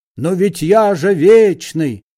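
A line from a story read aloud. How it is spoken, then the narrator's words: Old man shouting. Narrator (Russian): закричал старик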